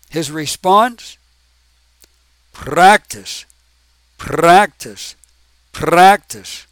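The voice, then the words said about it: Put-on Russian accent. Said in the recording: “That's supposed to be the the Russian accent.”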